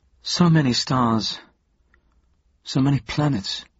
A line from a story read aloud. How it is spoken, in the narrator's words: sighed Geraldine